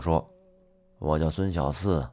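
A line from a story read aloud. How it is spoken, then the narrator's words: Calm, indifferent. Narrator (Chinese): 那个乞丐一点儿也没有表现出非常惊讶的样子，而是淡淡的回答道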